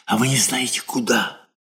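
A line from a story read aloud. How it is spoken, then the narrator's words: Loud whisper, question. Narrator (Russian): Облезлый Протопопов спрашивая громким шепотом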